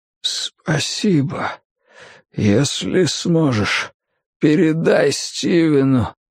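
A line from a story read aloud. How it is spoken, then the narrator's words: Whisper after ragged sighs. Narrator (Russian): Арчер несколько раз прерывисто вздохнул, затем прошептал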